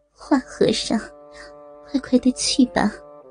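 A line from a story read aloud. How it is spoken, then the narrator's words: Coy, sweet laughing voice. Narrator (Chinese): 刀白凤娇躯微微一震，娇声的笑道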